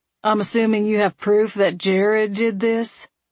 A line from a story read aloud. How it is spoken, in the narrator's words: Vern sneered